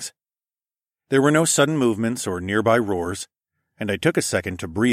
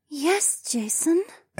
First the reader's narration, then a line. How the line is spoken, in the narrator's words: Adhara purred